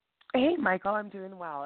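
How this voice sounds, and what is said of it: Congested voice from a cold. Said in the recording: “Excuse my voice. I have a cold.”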